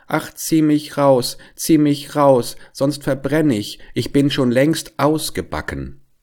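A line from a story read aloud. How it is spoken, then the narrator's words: Called out. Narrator (German): Das Brot aber rief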